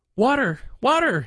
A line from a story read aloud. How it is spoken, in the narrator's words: he cried in his despair